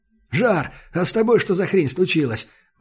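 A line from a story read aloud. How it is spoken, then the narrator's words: Exclaiming. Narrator (Russian): воскликнул Саша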